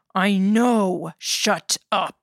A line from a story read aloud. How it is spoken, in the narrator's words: the fishmonger snarled